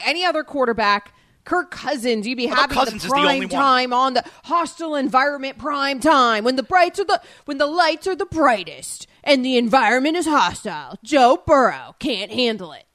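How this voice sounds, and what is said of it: Dramatic NFL promo narrator voice. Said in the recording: “that's a good impression. Yeah, that was your, like, narrator NFL guy promo impression. ... That was my NFL guy. NFL dude.”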